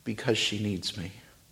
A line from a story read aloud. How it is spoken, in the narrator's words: says the man quietly